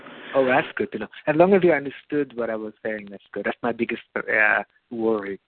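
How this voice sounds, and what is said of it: Non-native English accent. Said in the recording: “my accent after so many years in Israel ... your accent was fine”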